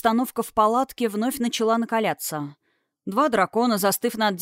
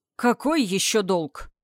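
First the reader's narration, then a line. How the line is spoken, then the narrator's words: Growling. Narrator (Russian): рыкнул Огненный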